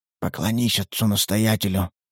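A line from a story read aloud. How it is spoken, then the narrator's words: Whisper. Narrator (Russian): шепнул Николай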